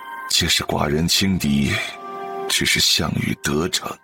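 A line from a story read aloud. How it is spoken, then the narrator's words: Heavy sigh. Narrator (Chinese): 王玲禁不住长叹一声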